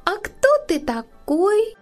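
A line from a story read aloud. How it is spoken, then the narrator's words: High squeaky voice. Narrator (Russian): спросила она высоким писклявым голоском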